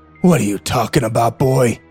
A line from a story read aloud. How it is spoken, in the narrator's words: He growled